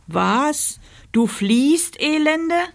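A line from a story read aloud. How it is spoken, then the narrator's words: Roared. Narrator (German): brüllte der Ritter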